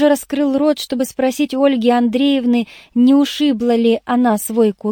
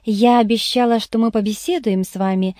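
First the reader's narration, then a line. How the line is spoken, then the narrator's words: Warm, affectionate. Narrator (Russian): сказала она ласково, словно между нами не было никаких столкновений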